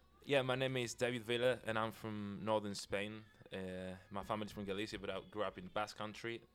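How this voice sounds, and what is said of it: Spanish-accented English. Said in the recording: “that awesome accent”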